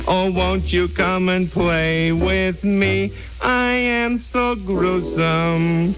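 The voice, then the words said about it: Elmer Fudd voice singing. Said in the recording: “he mastered the Elmer Fudd accent for that”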